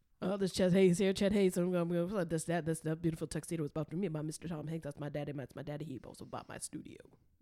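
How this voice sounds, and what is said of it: Fast Cajun auctioneer character voice. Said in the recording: “give it to me as a Cajun auctioneer ... You do an accent. It's very good. ... I can't get enough of Cajun auctioneer”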